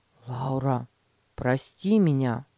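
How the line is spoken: Sincere, after a sigh. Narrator (Russian): Петя вздохнул и искренне сказал

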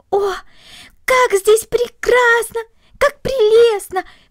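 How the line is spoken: Delighted exclamation. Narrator (Russian): воскликнула Корнелли, полное восхищение

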